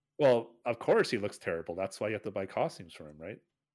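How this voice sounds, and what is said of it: Sarcastic delivery. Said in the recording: “that's me being sarcastic. I'm being sarcastic.”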